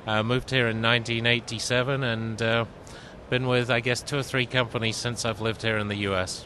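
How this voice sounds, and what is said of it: Slight British accent. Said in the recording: “you do speak with a little bit of an accent, ... I believe yours is British”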